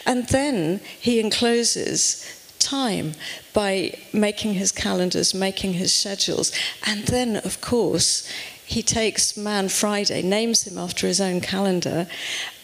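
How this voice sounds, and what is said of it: British English accent. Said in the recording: “you can tell from my accent that I come from over the pond”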